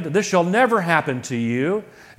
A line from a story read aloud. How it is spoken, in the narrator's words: exclaimed